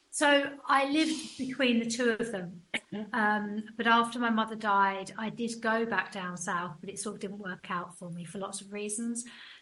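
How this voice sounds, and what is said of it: Essex English accent. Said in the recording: “My father lived in Essex, hence my accent.”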